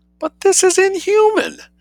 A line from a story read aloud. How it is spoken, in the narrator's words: exclaimed Sophie tragically